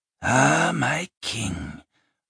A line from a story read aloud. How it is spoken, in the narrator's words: rasped a familiar voice